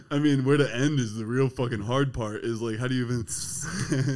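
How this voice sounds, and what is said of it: Usual voice. Nothing is said of it.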